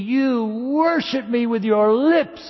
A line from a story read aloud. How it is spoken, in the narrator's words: He cried to them